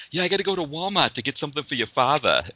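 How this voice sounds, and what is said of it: Put-on Boston accent, dropped R's. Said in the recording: “the Boston accent is probably one of the easiest ones to do because all it is just don't pronounce the R's ... there's that O sound that they do ... my family kind of all talks like that ... she didn't know that my family had the accent”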